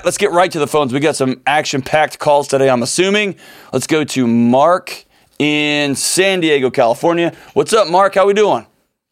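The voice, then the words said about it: Congested, allergy-affected voice. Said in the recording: “Seasonal allergies... You can hear it in my voice.”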